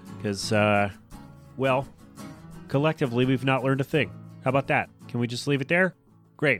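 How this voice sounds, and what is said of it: Slightly off, under-the-weather voice. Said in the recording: “I sound a little weird. I'm a little over the weather”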